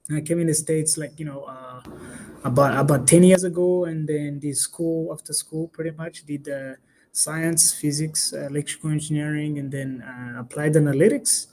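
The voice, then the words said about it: East African accent. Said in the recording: “as you can tell, I have an accent. I was born and raised in a tiny country in East Africa called Rwanda.”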